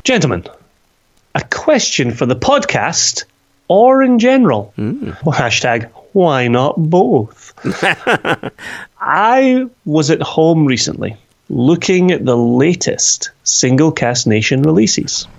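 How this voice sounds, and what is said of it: Put-on Scottish accent. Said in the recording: “in a Scottish accent”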